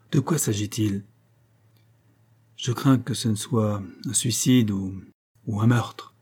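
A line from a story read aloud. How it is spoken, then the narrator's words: Sailor's grave voice. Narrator (French): répondit le marin d'une voix grave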